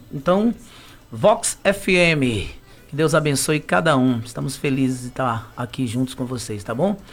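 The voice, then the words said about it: Radio announcer voice. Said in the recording (Portuguese): “com voz de locutor”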